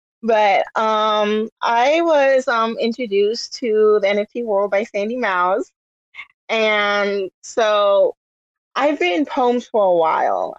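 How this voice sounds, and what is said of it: Hoarse, sick-sounding voice. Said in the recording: “Forgive my voice. ... I have bronchitis.”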